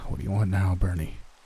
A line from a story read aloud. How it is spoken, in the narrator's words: I asked with a heavy sigh